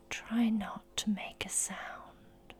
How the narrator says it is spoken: whisper

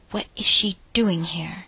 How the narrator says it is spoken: whispered angrily

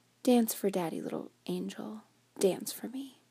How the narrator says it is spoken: He bade me gently

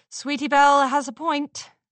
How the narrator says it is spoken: Twilight said dryly

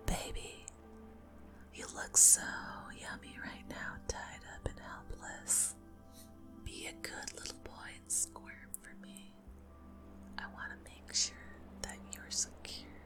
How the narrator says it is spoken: lean in close and whisper

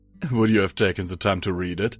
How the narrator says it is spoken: He said with a chuckle

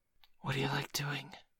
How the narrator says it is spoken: a voice suddenly whispered

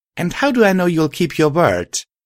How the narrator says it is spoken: Discot laughed again heavily

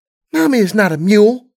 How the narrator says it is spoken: Serenity said indignantly

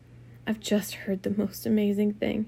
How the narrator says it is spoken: she whispered

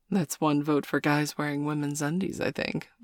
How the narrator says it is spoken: Mum laughed

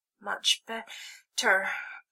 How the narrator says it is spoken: she said with a gasp

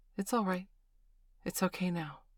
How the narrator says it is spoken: said gently

